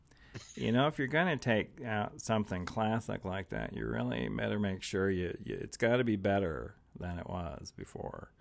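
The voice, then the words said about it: Imitates another person's voice. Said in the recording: “my Tony Baxter impression”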